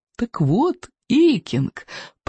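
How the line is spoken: Purr. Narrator (Russian): промурлыкал Сморкала

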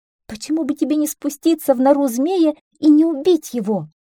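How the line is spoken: Sobbing plea. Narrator (Russian): всхлипнула миссис Ворона

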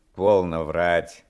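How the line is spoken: Stern interruption. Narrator (Russian): прервал я строго

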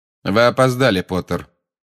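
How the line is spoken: Cold. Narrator (Russian): холодно сказал снег

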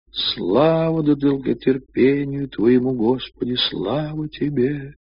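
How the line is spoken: Sobbing treble singing along. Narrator (Russian): всхлипывающим дискантиком подпевала

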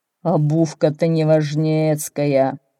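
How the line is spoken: Grumbling. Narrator (Russian): ворчало что-то

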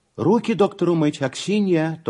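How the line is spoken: Immediate shout. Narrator (Russian): тотчас крикнула Анна Николаевна

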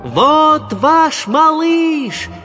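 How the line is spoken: Shouting at full strength. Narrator (Russian): закричал я изо всех сил

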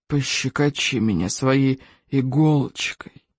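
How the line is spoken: Monster hissing. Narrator (Russian): прошипело чудовище

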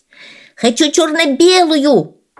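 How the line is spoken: Yelled. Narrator (Russian): завопил

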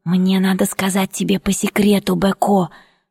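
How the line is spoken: Secretive whisper. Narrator (Russian): шепнула я так, чтобы не услыхал Сарем

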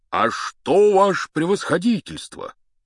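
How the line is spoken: Joyful. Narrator (Russian): сказал он радостно

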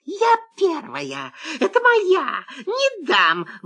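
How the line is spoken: Sudden fox shriek. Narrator (Russian): вдруг взвизгнула лиса

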